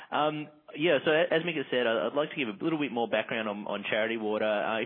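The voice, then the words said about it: Thick Australian accent. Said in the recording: “the thick Australian accent”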